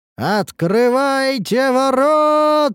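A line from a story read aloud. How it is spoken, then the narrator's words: Shouting with full force. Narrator (Russian): прокричал я изо всех сил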